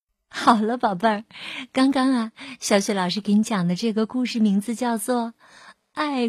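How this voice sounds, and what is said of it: Usual voice. Nothing is said of it.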